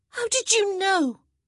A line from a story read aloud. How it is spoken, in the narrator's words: Hyacinth cried out